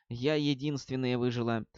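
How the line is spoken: Whispered. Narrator (Russian): Ливс прошептала

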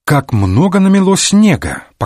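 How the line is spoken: Cheerful, casual. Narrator (Russian): сказал бодро, словно продолжая разговор

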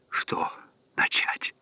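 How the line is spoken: Whispering. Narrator (Russian): прошептала фермерша

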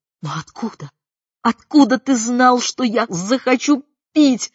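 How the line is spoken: Exclaimed, nearly sobbing. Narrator (Russian): воскликнула, чуть ли не рыдая

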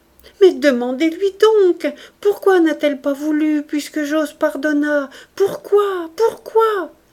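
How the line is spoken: Pleading. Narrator (French): suppliante

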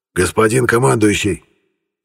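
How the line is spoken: Hoarse. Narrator (Russian): хрипло произнес лейтенант

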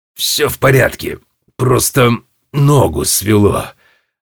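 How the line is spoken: Through gritted teeth. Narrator (Russian): ответил тот сквозь зубы

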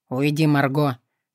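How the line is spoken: Low growl. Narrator (Russian): рыкнул тихо

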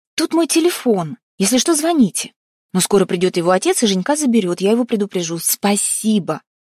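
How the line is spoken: Woman shouting. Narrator (Russian): Блондинка крикнула

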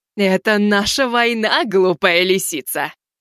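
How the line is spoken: Laughing. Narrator (Russian): засмеялась черная вдова

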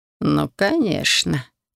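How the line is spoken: Snide drawl. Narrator (Russian): ехидно протянул Райт

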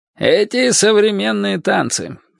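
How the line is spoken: Grumbling. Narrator (Russian): пробурчал таксист

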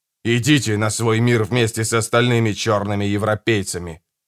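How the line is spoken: Growled. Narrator (Russian): прорычал он

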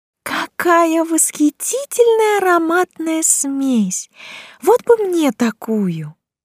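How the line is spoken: Dreamy drawl. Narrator (Russian): мечтательно протянула она

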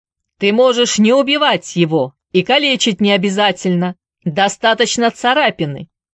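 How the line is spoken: Shout. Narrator (Russian): крикнул Трейси

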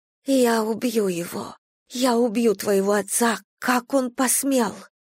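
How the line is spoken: Sobbing whisper. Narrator (Russian): Королева Лянь всхлипнула, зашептав на ухо

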